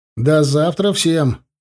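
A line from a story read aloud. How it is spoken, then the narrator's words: Shouted. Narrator (Russian): крикнул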